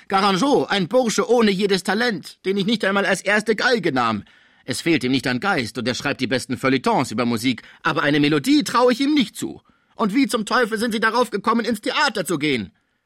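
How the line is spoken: Angry shout. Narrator (German): rief Pons wütend

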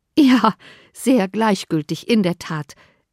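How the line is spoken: Laughing reply. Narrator (German): erwiderte Elizabeth lachend

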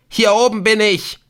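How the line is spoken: Shrieking. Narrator (German): kreischte Ortolan

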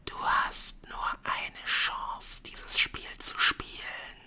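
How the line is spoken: Breathy whisper in ear. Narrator (German): haucht jemand in Sarius' Ohr

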